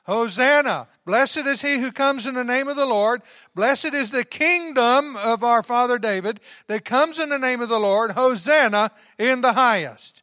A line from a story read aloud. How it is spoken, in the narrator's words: those that went before and those that followed cried out